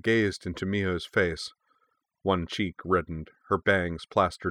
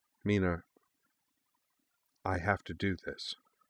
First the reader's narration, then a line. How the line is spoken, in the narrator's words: Mio said softly